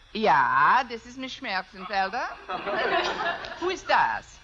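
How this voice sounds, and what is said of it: Put-on German accent. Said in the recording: “If I can do a decent German accent.”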